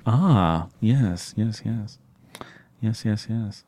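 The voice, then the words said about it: Jeff Goldblum impression, enthusiastic agreeing. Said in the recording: “another impression, Jeff Goldblum, but I can only do Jeff Goldblum enthusiastically agreeing with you”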